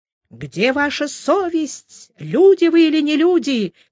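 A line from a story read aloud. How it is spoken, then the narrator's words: Shouting, old man. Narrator (Russian): кричал этот старик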